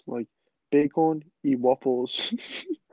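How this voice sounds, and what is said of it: Imitates another person's accent. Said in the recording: “that dude has a crazy accent. He was like saying like bacon and waffles.”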